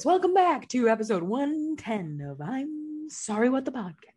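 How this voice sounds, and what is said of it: Radio announcer voice. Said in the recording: “Do my radio announcer voice.”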